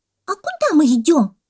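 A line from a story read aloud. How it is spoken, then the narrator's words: Shouting monkey. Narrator (Russian): закричала мартышка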